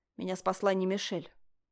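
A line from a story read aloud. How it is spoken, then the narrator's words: Curt clipped speech. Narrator (Russian): отрывисто произнес император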